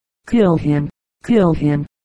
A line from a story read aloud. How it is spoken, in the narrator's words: cried Jackson's men